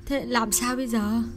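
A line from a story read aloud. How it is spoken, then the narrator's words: Whimpering, near tears. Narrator (Vietnamese): Chị mếu máo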